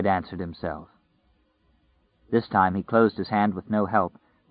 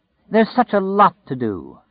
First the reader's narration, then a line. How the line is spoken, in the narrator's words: Flagg said happily